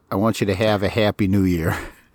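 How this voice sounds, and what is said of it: Put-on Chicago accent. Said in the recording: “that Chicago accent”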